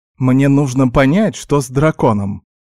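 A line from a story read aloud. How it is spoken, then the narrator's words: Snapped. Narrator (Russian): огрызнулся я на Винни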